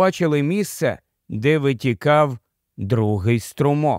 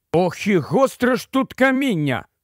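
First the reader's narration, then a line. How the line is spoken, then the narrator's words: Exclaiming. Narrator (Ukrainian): вигукнув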